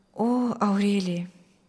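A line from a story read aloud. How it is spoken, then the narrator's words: Quiet reply. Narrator (Russian): тихо отвечал Мирослав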